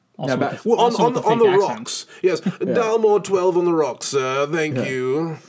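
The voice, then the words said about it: Put-on accent. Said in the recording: “What's with the accent?”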